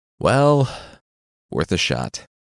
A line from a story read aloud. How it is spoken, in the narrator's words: the demon said with a sigh